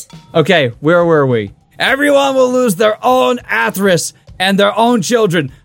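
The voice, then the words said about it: Bernie Sanders impression. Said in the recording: “I can do Bernie Sanders. You want me to do Bernie Sanders?”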